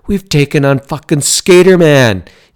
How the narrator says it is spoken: yelled the one who had the knife

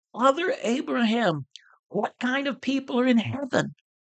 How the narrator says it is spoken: he cries out

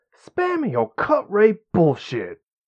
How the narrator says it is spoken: Carradine spat

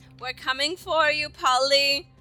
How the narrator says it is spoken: yell out

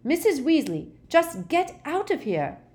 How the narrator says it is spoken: shouted Harry

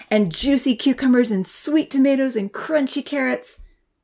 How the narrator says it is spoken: Santa laughed

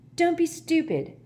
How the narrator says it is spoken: said Ron sharply

